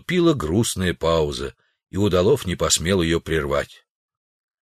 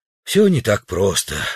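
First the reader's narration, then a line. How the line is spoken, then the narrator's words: Sigh. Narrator (Russian): вздохнул президент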